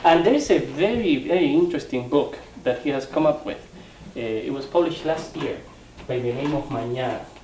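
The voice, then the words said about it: Strong Hispanic accent. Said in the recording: “my strong Hispanic accent”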